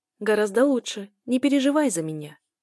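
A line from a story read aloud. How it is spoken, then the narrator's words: Cheerful speech. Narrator (Russian): говорю бодро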